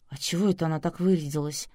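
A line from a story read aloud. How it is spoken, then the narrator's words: Suspicious whisper. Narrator (Russian): подозрительно прошептала Надя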